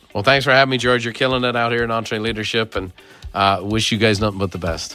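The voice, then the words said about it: Irish accent. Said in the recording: “who doesn't love a good Irish accent?”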